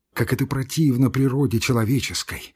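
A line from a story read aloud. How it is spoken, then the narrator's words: Sighing. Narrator (Russian): вздохнул дьякон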